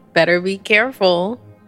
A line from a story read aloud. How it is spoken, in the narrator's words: she chuckled